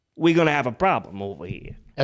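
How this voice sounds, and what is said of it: Put-on accent. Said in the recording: “the accent's getting better”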